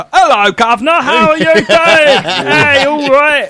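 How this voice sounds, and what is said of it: American imitating a London accent. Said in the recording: “done my accent at me ... So you just did an impression of American, an impression of you.”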